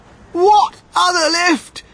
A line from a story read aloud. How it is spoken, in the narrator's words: screamed Mrs